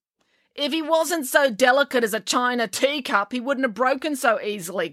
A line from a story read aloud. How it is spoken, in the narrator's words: grumbled April